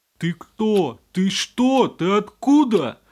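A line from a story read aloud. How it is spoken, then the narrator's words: Roaring. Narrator (Russian): проревел батя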